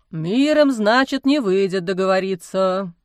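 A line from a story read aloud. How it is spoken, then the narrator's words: Sighing. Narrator (Russian): вздохнул отец Амвросий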